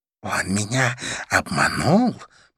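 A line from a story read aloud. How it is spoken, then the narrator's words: Hissed. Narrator (Russian): прошипела мадам Жу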